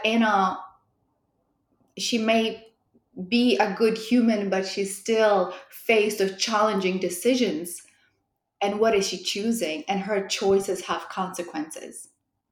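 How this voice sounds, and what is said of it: European accent. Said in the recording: “there's a definite European accent in there”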